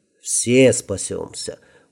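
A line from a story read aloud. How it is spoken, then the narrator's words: Weary smirk. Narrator (Russian): усмехнулся алхимик, устало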